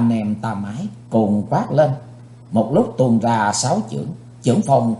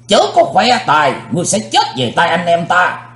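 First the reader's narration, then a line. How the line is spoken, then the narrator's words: Thunderous shout. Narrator (Vietnamese): Tam Ái Viên Hồng Phương cũng quát tợ sấm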